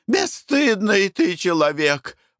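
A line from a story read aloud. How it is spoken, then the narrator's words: Exclamation. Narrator (Russian): воскликнула Глафира Семеновна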